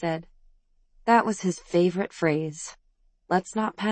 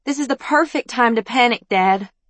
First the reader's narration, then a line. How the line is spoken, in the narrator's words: Layla screeched